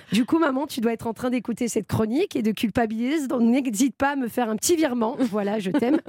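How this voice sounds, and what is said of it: Southern French accent. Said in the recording (French): “l'autre con avec son accent du sud qui fait des chroniques”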